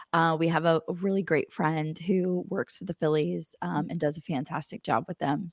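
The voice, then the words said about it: Strained, cracking, worn-out voice. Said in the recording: “my voice is not hanging in there here ... I sound like a teenage boy”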